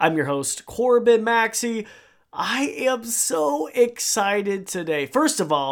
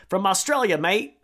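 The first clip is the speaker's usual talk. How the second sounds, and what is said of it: Poor put-on Australian accent. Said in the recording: “Oh, that sounded awful... my horrible Australian accent”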